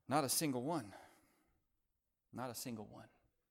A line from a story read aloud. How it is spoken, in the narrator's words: he mumbled